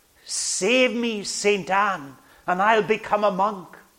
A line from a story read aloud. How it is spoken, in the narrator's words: cried out